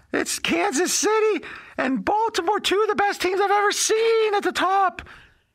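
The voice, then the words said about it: Imitates another person's voice. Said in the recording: “this is just me imitating it now”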